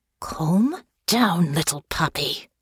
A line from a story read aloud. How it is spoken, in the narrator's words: a familiar voice hissed in her ear